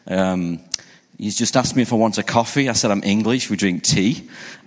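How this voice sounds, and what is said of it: English accent. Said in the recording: “I'm from the UK, you can probably tell by my accent.”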